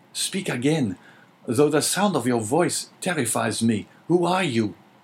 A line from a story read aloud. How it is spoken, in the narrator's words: cried Dante